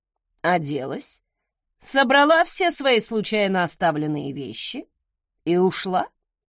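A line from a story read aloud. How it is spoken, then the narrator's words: Calm explanation. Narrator (Russian): спокойно пояснил Закари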